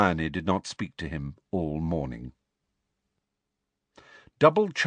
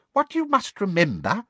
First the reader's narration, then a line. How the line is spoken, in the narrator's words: said little Professor Flitwick squeakily